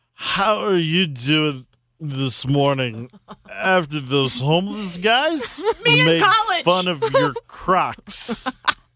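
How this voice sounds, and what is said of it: Drunk-sounding slurred voice. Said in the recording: “intoxicated ... Drunk is the accent.”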